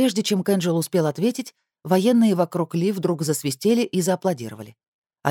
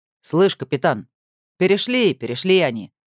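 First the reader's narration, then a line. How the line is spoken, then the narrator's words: Chuckling soldier. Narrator (Russian): хохотнул военный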